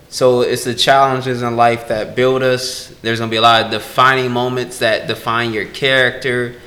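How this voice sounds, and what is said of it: Monotone, low-energy speaking voice. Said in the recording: “I'm pretty monotone. I know I'm pretty monotone. I know I'm pretty boring.”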